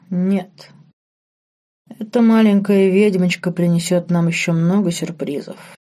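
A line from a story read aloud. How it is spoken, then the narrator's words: Sighing. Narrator (Russian): вздохнул Марк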